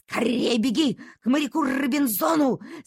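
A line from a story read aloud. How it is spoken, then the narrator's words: Shouting. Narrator (Russian): закричала доктору Ава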